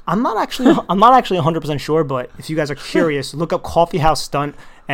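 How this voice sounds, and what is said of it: New Jersey accent, East Coast pronunciation. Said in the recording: “my New Jersey accent just came out there like crazy ... that is actually the correct way to pronounce coffee ... East Coast bias”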